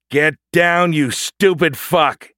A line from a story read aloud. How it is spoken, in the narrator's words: he shouted